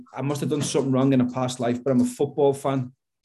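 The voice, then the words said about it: Scouse accent. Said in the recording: “I've got a Scouse accent”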